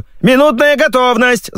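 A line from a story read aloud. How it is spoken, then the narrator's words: Yelling from above. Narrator (Russian): заорали с потолка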